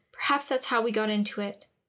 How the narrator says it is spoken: she said quickly, defensively

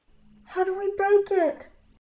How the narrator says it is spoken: Opal asked frantically

